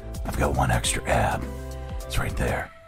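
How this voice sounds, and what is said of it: Gravelly Batman impression. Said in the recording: “doing your Batman voice ... Every man thinks he can do the Batman voice ... when he says things like that in the Batman voice”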